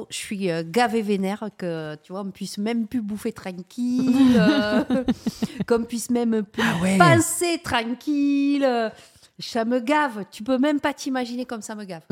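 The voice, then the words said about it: Put-on southwest French Bordeaux accent. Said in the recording (French): “garder cet accent jusqu'au bout de ce podcast ... C'est l'accent bordelais. ... elle le fait bien, mais c'est vrai, c'est le vrai accent du Sud-Ouest, ça. ... Ouais, un peu parisien.”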